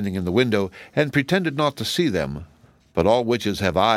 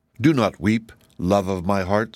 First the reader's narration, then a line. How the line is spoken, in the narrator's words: said the boy